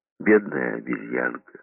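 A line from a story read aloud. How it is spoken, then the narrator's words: Sighing. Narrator (Russian): вздохнула Холли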